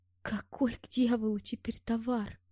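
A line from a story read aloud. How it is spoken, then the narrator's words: Barely audible. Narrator (Russian): произнесла она так тихо, что я с первого раза не расслышал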